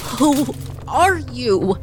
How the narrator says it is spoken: Trina, terrified, finally managed to croak

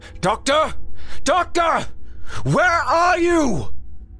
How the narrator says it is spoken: Through his damaged voice transmitters, Grimm shouted

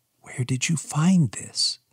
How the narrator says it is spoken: She whispered

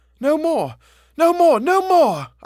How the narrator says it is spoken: I shrieked

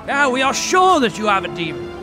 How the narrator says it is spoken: they shouted

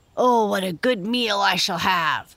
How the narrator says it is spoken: grunted Squinty

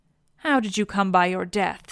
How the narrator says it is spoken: said I

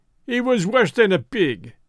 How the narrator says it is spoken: he cried

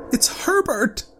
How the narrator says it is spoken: she screamed

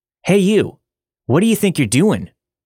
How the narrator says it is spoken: one of the officers yell

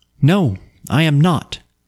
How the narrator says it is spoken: said she

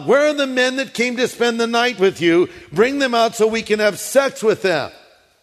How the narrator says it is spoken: The men shouted to Lot

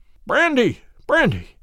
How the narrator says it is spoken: he gasped

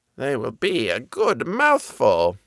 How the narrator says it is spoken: she mumbled to herself

